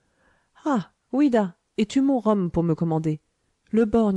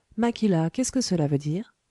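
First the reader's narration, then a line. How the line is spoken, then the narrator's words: Plain. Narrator (French): demanda l'anglais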